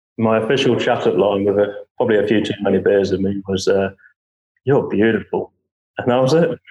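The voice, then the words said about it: English accent. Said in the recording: “it might have been the English accent.”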